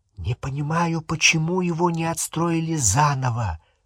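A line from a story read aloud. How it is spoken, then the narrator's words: Whispering. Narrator (Russian): шепнула Гермиона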